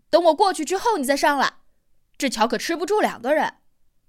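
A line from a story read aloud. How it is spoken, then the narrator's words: Shout. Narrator (Chinese): 四娃冲他喊了一句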